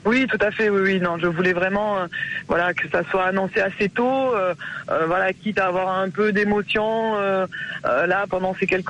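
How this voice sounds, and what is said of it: Sing-song southwestern French accent. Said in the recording (French): “le petit accent du Sud-Ouest ... cet accent chantant”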